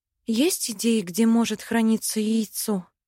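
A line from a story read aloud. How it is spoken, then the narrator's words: Sigh. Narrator (Russian): вздохнула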